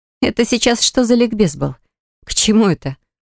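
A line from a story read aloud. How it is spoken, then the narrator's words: Snort. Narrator (Russian): фыркнула я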